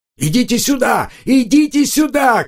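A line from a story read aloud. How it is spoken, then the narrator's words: Shouting. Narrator (Russian): крикнул Банк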